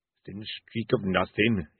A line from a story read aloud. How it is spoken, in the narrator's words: muttered